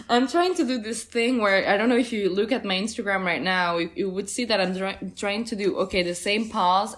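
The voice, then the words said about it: Speaks with a strong accent. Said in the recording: “Sorry, my accent's so bad.”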